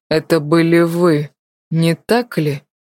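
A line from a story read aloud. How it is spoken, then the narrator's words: Slow, tense, breathless. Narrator (Russian): медленно произнес Артур, с удивлением ощущая у себя в груди небывалое напряжение, которое мешало ему даже вздохнуть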